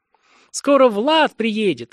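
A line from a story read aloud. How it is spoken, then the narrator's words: Joyful announcement. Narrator (Russian): радостно сообщила Санни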